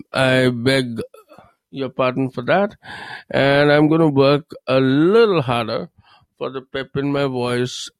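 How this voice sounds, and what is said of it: Low, slightly hoarse voice. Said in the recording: “I've got a little sore throat and my voice is a little low”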